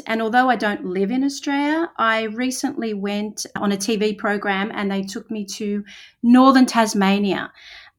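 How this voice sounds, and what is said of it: Australian accent. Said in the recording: “obviously I'm Australian. You can hear by my accent.”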